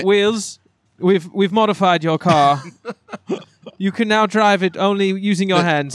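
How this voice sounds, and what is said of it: Put-on British accent. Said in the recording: “a guy with a British accent”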